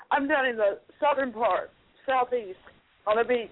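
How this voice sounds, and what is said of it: American Southern accent. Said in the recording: “You can't tell from the southern accent... Yeah, but I wasn't sure if it was Texas or Kentucky.”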